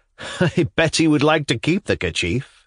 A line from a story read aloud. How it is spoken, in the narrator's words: said the young man, laughing